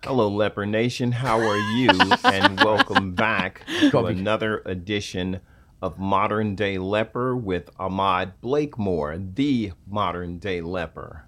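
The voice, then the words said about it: Radio announcer style voice. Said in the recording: “His voice is amazing. ... He's got a radio voice.”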